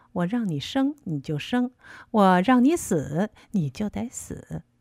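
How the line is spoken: Cold laugh, warning. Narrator (Chinese): 呵呵的冷笑着，那意思是警告我

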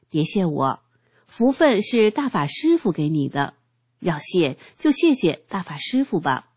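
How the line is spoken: Laughing. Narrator (Chinese): 我笑着说

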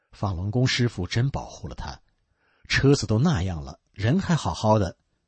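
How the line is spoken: Amazed. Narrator (Chinese): 修车工人惊叹道

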